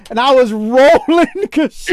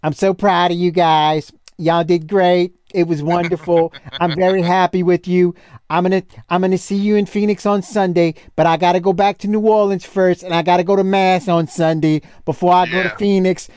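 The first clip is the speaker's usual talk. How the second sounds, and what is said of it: Imitated New Orleans accent. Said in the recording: “in that New Orleans accent ... it's like listening to my fucking mama”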